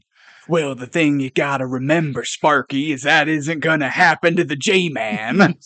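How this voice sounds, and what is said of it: Robin Williams' Genie imitating Jack Nicholson. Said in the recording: “Sounded like Robin Williams in Aladdin. ... My Jack Nicholson is not a Jack Nicholson impression. It's an impression of Robin Williams doing an impression of Jack Nicholson. Genie.”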